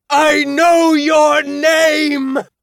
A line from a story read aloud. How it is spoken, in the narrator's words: I shouted